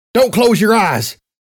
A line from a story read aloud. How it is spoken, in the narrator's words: I yelled over to Hayes